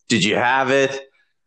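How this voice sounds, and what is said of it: Raspy imitation of a film actor. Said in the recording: “great Matt Damon impression... This is Matt Damon after 20 years of chain smoking.”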